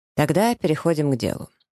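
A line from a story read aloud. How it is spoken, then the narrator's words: Businesslike tone. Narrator (Russian): говорит он деловым тоном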